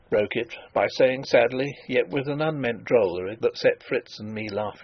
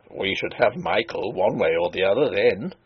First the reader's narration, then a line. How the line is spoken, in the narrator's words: he chuckled